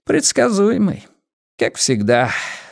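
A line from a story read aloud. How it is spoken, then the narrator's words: Sighing. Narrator (Russian): вздохнул киллер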